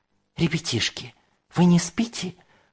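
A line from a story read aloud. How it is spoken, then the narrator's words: Whispered question. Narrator (Russian): шепотом спросила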